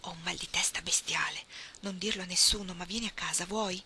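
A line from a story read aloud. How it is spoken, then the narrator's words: Whispered. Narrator (Italian): le sussurrò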